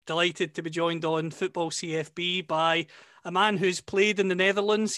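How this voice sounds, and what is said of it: Scottish accent. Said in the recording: “you can tell from my accent, of course, that I'm from Scotland”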